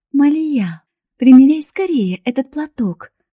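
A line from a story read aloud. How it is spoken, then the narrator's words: Joyful. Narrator (Russian): радостно сказала Алия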